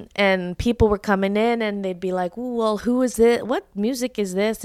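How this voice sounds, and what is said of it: Southern American accent. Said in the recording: “I love your Southern ... accent.”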